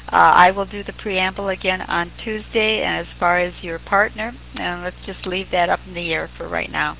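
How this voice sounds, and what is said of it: Drawling speech. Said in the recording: “she's really got the drawl for this thing”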